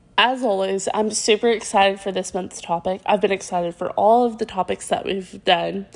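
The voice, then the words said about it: Congested, slightly deeper voice. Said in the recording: “I sound a little different, it's because I'm having some sinus issues today, so that's why my voice may sound a little deeper”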